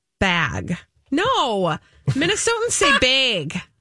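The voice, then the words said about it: Minnesota accent, exaggerated vowel. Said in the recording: “you have a Minnesota accent ... Can you tell I'm not saying it how I usually say it?”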